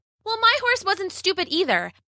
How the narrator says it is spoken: Bella shouted

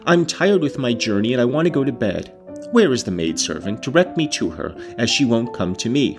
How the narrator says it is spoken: I exclaimed

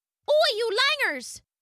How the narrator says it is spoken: yelled Kathy

